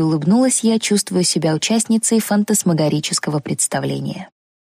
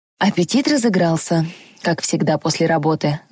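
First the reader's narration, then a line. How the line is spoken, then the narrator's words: Sighing. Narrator (Russian): вздохнул доктор Брэдфорд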